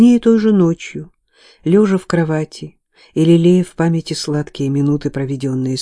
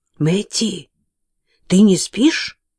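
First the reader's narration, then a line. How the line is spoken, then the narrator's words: Loud whispered question. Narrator (Russian): громким шепотом спросила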